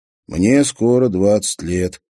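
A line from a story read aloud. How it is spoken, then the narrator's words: Answered wearily. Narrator (Russian): отвечал он устало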